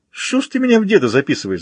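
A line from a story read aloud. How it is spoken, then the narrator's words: Laughing. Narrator (Russian): засмеялся Артем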